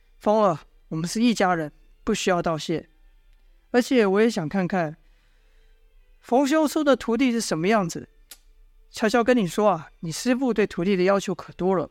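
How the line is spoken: Smiling. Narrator (Chinese): 笑道

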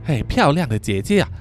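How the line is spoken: Smiling quiet voice. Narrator (Chinese): 大学生模样的男子，满脸微笑的小声的对他说

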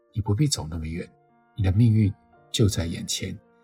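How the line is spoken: Deep sigh. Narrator (Chinese): 天鹅深深叹一口气

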